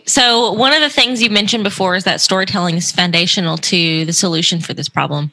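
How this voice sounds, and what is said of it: Southern American accent. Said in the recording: “there's that Southern accent. I heard it. ... Your Southern Belle.”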